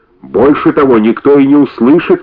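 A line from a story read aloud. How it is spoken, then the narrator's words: Shouting after someone. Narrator (Russian): кричала ему вслед Соня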